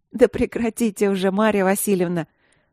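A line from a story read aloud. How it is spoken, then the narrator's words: Laughing. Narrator (Russian): рассмеялась грозная и прекрасная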